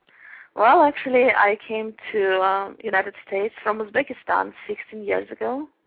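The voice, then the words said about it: Russian-sounding Uzbek accent. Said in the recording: “you have an interesting accent ... this nice KGB accent ... a very charming accent”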